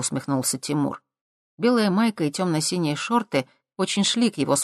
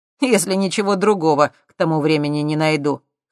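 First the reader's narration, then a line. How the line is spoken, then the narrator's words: Snorted. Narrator (Russian): хмыкнул Тимур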